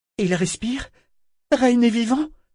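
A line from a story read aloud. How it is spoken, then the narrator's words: Breathless question. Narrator (French): demanda Malta haletante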